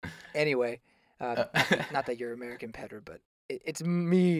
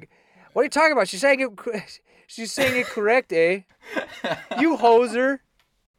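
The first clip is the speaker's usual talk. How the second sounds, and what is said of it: Mock Canadian accent. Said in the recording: “the Canadian's like”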